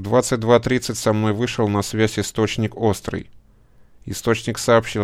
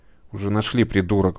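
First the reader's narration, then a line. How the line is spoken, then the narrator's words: Curt mutter. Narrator (Russian): буркнул Дефер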